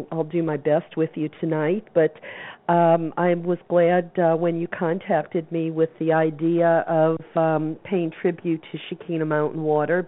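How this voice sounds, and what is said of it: Strained voice cutting in and out. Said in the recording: “my voice is sort of coming in and out here”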